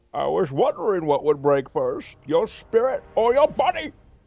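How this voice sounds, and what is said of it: Bane villain voice impression. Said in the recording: “do your Bane impression. ... Yeah, Bane's solid. ... Oh, terrible.”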